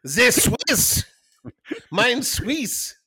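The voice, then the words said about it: Mock Swiss-German accent. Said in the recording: “Swiss accent because it sounds just like a German accent.”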